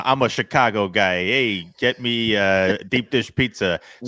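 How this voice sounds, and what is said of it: Put-on Chicago accent. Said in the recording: “Whoa, are you a native, dude? ... that's what a good they accent. Sound like”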